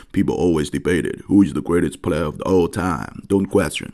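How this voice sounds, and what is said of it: Deep low voice imitating Jordan, Kobe. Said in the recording (Chinese): “你像乔丹、科比那种，就是就是非常低沉啊，然后尽量去隐藏那种黑人的那种街头口音啊...当然这可能学的不是很像啊”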